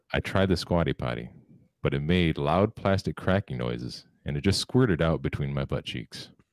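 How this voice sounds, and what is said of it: Exaggerated serious deadpan voice. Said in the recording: “I'm gonna say it in my most serious voice.”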